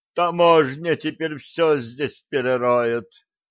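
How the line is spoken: Groaning. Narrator (Russian): простонал ученый

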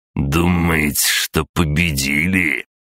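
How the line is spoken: Furious, through clenched teeth. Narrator (Russian): со злостью процедил Дмитрий, окончательно выходя из себя

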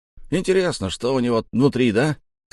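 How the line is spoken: Short man shouting. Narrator (Russian): крикнул мне коротышка

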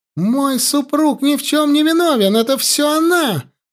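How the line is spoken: Shrill scream. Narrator (Russian): пронзительно закричала Рати

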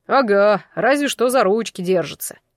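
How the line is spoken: Disappointed snort. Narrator (Russian): разочарованно фыркнул кто-то

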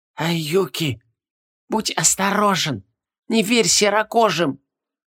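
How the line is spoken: Barely audible. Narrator (Russian): Еле слышно сказал Вером Паньге

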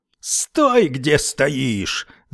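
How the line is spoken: Screamed. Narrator (Russian): завопил Уитни

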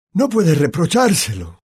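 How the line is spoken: Said kindly. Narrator (Spanish): dijo Dumbledore con tono afable

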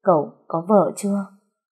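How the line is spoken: Sniffling tearfully. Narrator (Vietnamese): Trúc sụt sùi

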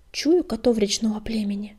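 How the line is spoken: Whisper. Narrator (Russian): прошептал он

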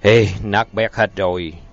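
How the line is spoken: Sighing. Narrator (Vietnamese): Sêu thở dài

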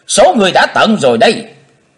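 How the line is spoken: Shout. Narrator (Vietnamese): Trong tiếng hét

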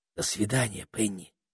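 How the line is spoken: Whisper. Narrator (Russian): шепнул Питер

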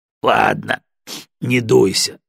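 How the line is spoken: Laughing. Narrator (Russian): засмеялся Егоров

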